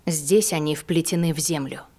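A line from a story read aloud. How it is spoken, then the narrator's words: Quiet. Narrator (Russian): тихо произнесла она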